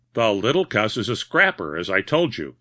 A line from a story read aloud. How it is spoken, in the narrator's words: he chuckled